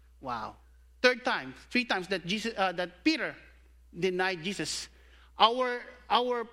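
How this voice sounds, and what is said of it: Usual voice. Nothing is said of it.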